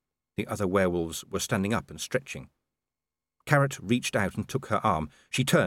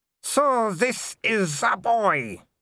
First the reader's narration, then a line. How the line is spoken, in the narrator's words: said the Baroness, her voice slurring